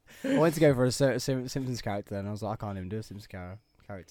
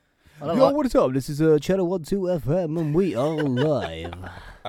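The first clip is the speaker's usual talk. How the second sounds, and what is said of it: Exaggerated radio DJ voice. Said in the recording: “radio voice ... Sound like you're like a character from The Simpsons.”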